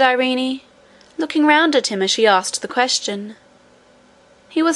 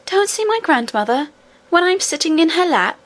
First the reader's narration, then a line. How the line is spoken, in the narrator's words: exclaimed the princess